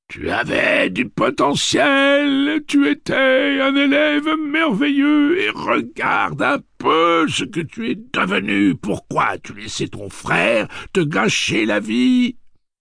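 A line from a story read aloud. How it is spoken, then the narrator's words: Sobbing indignant retort. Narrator (French): Henry répliqua en sanglotant d'indignation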